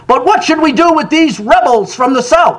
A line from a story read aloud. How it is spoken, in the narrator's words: Senator Harlan shouted